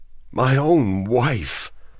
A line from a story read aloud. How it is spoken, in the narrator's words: he said in a trembling voice